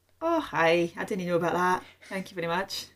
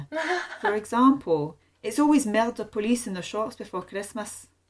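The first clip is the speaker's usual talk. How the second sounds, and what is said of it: Convincing put-on Scottish accent. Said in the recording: “You do an amazing Scottish accent.”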